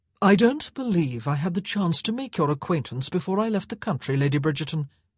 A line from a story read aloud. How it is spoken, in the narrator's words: Simon said smoothly